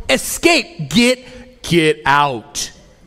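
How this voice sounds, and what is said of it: Attempted scary voice. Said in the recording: “That's my best scary voice. I'm sorry, it didn't work.”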